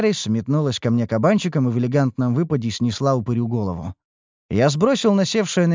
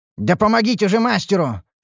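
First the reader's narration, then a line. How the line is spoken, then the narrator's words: Bark. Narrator (Russian): рявкнул я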